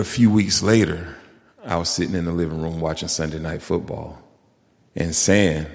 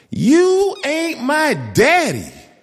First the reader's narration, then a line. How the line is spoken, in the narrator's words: she screamed